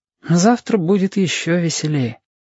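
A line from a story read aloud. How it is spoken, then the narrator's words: Said with a sigh. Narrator (Russian): сказал Сашка и почему-то вздохнул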